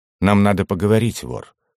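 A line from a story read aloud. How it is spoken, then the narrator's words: Curt and dry. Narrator (Russian): сухо бросил Алистан Маркаус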